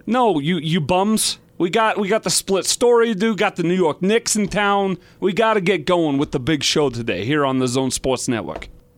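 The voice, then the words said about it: Put-on Brooklyn accent. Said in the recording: “I talk with a Brooklyn accent.”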